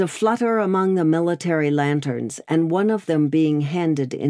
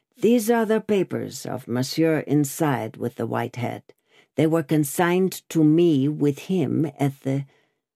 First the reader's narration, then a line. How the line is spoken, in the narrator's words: He dropped his voice